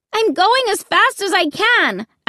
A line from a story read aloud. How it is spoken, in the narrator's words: I screamed